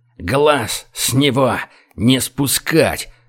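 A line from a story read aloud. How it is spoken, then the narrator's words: Strained, forced out. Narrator (Russian): Выдавил из себя начальник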